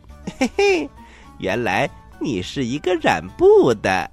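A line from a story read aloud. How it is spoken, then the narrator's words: Laughing. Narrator (Chinese): 悟空笑着说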